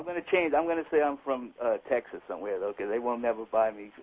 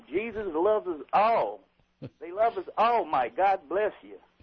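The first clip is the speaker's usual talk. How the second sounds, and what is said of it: Put-on Texas preacher accent. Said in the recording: “Can you do a Texas accent?”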